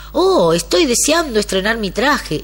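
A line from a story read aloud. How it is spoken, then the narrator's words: Emperor's exclamation. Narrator (Spanish): exclamó el emperador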